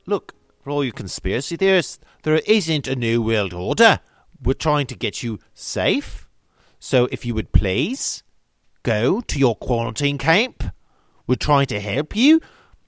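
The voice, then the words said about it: Put-on Australian accent, rising question intonation. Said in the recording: “Do Australian New World Order accent. ... I love how Australians, they always, like, end their words with a question.”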